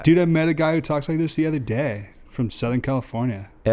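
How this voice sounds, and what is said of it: Put-on Southern California surfer accent. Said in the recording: “You sound pretty legit to me right now... a Southern California surfer accent”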